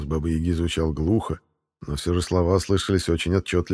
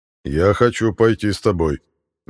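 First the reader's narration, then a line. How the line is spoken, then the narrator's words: Loud declaration. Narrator (Russian): громко заявил Финист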